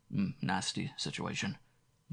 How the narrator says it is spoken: Dane murmured

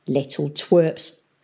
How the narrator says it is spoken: snorted Peavy

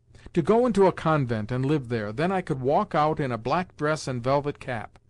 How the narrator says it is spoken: cried Katenka

